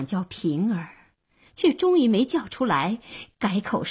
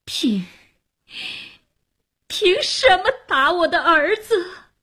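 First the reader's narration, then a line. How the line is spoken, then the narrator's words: Crying out, disappointed. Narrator (Chinese): 哭喊着失望而去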